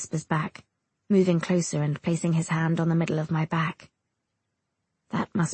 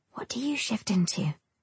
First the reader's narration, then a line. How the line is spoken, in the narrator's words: I whisper to East